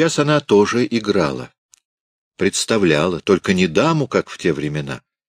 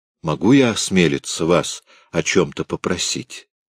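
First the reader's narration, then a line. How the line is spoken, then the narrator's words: Timid. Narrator (Russian): он робко сказал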